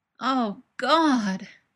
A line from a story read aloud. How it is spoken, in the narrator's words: moans